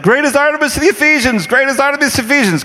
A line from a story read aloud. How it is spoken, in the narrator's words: I just started yelling